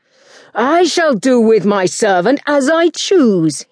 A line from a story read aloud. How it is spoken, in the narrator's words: he yelled